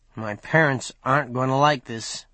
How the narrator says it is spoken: he muttered

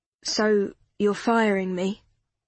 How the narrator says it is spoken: Matt said, his voice weary

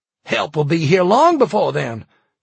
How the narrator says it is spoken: Tom shouted

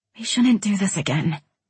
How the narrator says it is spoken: I whispered

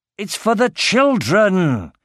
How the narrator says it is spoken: He shouted angrily

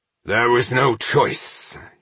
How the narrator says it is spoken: he growled

